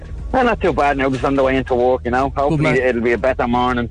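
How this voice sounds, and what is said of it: Irish Dublin and Cork accent. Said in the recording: “Is this a Dublin accent? ... Dublin and Cork, yeah.”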